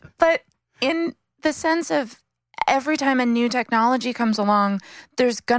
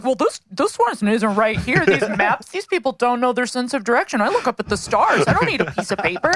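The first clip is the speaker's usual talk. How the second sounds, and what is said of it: Imitates another person's voice. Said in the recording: “Like impersonation... that sounded great... That was a pretty good Zach.”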